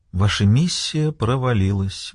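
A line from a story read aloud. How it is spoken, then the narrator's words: Sad young woman. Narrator (Russian): грустно проговорила девушка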